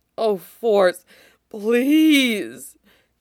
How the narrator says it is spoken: Cody moans

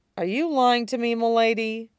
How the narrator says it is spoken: His tone was wary

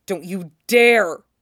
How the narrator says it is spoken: growls

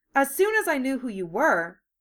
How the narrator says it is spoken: Kaoru said brightly

